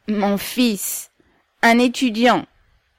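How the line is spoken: Old woman, resonant voice. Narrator (French): répondit la vieille d'une voix sonore

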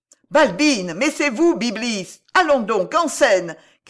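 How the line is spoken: Shouted. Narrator (French): cria le régisseur

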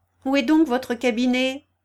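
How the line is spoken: Shouting. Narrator (French): cria-t-elle

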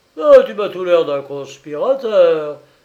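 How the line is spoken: Menacing, terrible voice. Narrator (French): dit Bilzac d'une voix terrible

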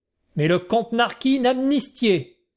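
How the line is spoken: Exclaimed, bursting out laughing. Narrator (French): s'écrie Monsieur Cascabel en partant d'un superbe éclat de rire

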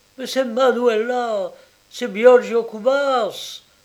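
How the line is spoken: Exclaiming. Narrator (French): s'écria Ludovic

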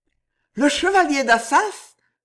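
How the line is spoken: Exclaiming. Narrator (French): s'écria Jeanne

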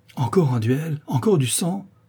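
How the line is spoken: Exclaiming. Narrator (French): s'écria Rosembert

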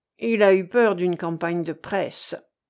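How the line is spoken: Grumbling. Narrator (French): grommela quelqu'un

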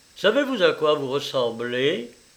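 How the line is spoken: Plain. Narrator (French): lui dit André

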